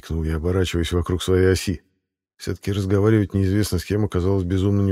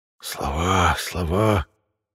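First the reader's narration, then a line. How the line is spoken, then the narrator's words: Whisper with a sigh. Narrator (Russian): шепот сопровождался отчетливым вздохом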